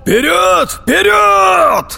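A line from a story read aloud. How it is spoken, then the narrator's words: Commanders shouting. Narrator (Russian): закричали командиры подразделений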